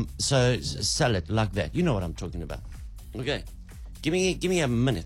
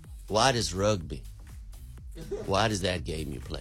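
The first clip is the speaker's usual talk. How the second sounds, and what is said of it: Put-on Arizona American accent. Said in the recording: “That's an Arizona accent, by the way.”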